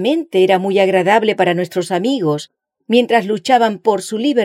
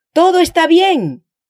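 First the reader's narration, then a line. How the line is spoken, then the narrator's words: Shouting again. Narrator (Spanish): gritaba otra vez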